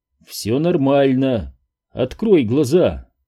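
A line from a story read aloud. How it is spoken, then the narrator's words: Calm. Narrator (Russian): Голос Фила снова звучал спокойно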